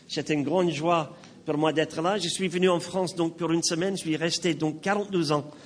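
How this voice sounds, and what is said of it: Slight foreign accent in French. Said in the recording (French): “J'ai un petit accent. J'ai même pris des cours de diction pour perdre mon accent. ... Donc, j'ai gardé mon accent.”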